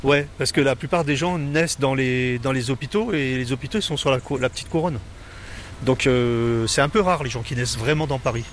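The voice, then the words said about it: Parisian French accent. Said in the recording (French): “j'ai gardé mon accent parisien quand même”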